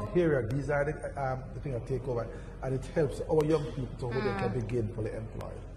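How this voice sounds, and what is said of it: Jamaican accent. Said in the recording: “This accent is one of the best in the world... Jamaican”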